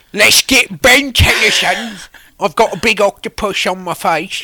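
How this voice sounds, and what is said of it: Bad Cockney British character voice. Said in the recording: “my Vilgax voice ... It's terrible ... It's British, Cockney. But it's Cockney, yeah.”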